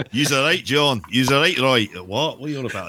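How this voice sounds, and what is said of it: Bad put-on Scottish accent. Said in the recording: “that's a terrible accent. ... You're going to get more Scots giving us bad reviews on it.”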